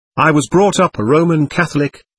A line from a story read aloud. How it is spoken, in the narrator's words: he answered